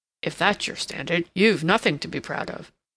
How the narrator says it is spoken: said Ralph grimly

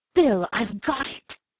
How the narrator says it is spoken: He cried

